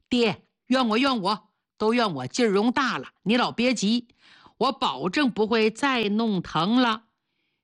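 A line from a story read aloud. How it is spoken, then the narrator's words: Laughing, comforting. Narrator (Chinese): 严信总是笑着安慰他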